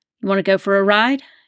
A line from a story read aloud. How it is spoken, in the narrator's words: he asked, his voice wavering more than he would have liked